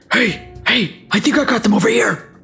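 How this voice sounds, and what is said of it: Gruff orc character voice. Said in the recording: “in an orc voice”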